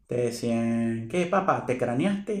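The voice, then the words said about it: Put-on regional Venezuelan accent. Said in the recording (Spanish): “Así, con eh, ese acento”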